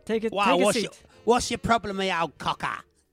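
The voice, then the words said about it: Exaggerated put-on Cockney accent. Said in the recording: “Put on a Cockney accent ... stop that ludicrous accent”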